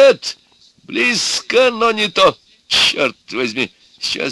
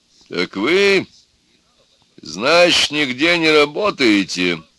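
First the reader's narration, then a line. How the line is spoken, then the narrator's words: Stern question. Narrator (Russian): строго спросил некто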